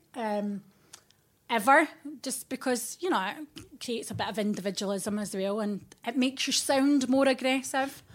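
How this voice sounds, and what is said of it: Scottish Fife accent. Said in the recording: “you do not have a an, an accent that sounds Oxford ... I am from Fife ... I've not tried to lose my accent.”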